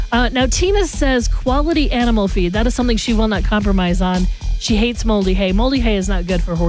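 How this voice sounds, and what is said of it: Usual voice. Nothing is said of it.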